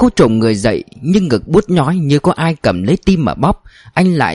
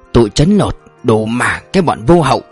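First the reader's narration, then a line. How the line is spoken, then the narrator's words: Sighing, grumbling under breath. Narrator (Vietnamese): Người chủ xe thở dài một tiếng, lát sau ông làu bàu trong cổ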